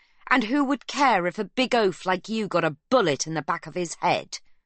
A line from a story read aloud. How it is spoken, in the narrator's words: she snarls